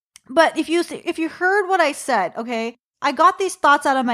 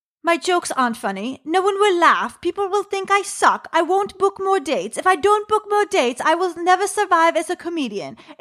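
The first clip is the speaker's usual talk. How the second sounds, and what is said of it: Bad put-on British woman's accent. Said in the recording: “my inner critic is a British woman with a bad British accent.”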